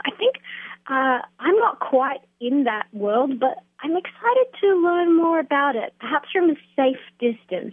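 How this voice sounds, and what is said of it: Australian accent. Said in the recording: “I knew you were Australian ... your accent”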